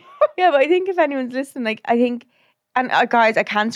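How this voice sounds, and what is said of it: Usual voice. Nothing is said of it.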